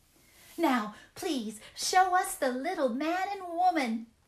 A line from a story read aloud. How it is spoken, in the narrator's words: they cried